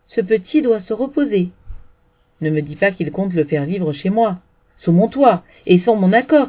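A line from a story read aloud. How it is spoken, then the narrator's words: Shouting. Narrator (French): cria-t-elle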